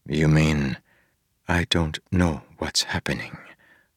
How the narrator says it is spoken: Harmony said softly

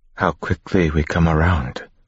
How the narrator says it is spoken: Sazed whispered

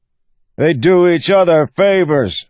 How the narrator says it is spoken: the man bellowed

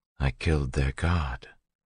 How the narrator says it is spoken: Vin said quietly

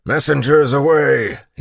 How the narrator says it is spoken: he bellowed

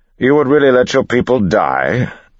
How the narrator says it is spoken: Ellen said loudly

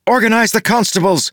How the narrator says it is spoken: Maracy shouted to Blantach

